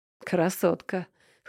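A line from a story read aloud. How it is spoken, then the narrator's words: Smirking grunt. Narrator (Russian): хмыкнул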